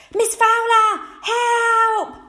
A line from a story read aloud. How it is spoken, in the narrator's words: Curtis screamed